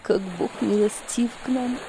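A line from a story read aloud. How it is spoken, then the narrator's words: Whisper. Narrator (Russian): прошептала она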